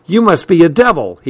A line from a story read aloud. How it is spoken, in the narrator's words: he cried out